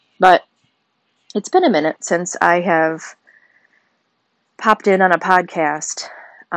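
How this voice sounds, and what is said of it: Sick, congested voice. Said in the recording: “I am under the weather. I've been fighting an ear and sinus infection ... You can kind of hear that in my voice.”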